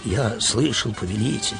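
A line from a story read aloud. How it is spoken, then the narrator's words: Trembling voice. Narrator (Russian): дрожащим голосом сказал Верес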